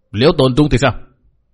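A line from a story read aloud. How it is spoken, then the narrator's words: Shouting. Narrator (Vietnamese): Mạc Nam lão ma quát bảo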